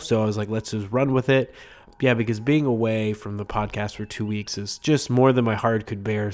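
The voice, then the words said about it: Congested voice from a cold. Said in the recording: “I have a cold. I, I still am fighting this thing, so again, I apologize if my voice sounds a little bit different ... apologize for any any weird audio from my voice”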